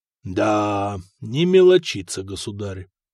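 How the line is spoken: Surprised drawl. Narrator (Russian): удивленно протянул Максим

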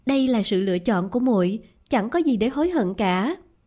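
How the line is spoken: Smiling. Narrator (Vietnamese): Khương Linh Diệp mỉm cười

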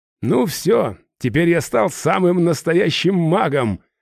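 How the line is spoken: Laughing loudly. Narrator (Russian): расхохотался я

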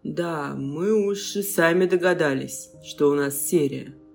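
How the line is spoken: Grumbling. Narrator (Russian): проворчал Андрей

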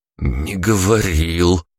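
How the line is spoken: Hoarse wheeze. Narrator (Russian): просипел я

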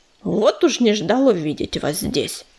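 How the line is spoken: Grumbling. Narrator (Russian): проворчал дымок

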